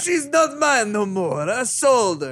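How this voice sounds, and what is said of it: Watto impression, alien accent. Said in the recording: “a Watto apology video ... Watto, sorry ... Sorry about my accent. It's George's fault.”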